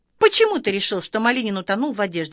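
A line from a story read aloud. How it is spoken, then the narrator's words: Plain. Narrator (Russian): спросила Эра Кузякина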